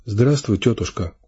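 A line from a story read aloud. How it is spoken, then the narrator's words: Quiet, sick woman. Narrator (Russian): сказала тихо больная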